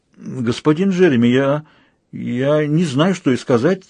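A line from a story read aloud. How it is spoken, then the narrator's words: Stammering. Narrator (Russian): запинаясь, произнесла ее светлость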